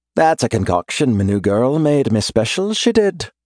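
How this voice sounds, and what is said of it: Teasing heavier Irish accent. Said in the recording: “There's a teasing note in his voice, the Irish accent kicking up a notch.”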